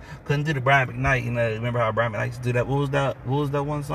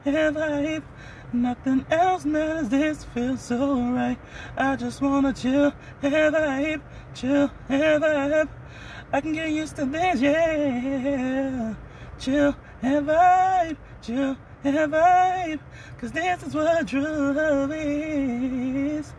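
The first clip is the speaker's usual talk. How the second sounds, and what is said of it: Singing in high falsetto. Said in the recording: “This dude just dropped the falsetto on us. That was the falsetto ... Them high tenor notes.”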